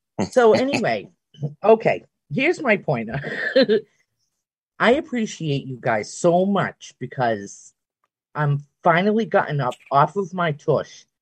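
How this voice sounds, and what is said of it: Slight Boston accent. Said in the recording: “I got some of the Boston accent”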